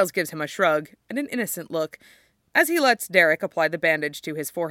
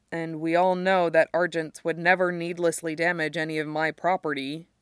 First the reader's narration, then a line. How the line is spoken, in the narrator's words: Derek says evenly